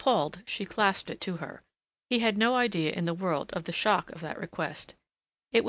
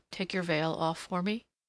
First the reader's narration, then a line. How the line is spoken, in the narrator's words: he said softly